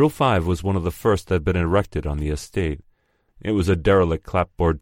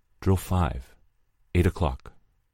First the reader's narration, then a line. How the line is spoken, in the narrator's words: he whispered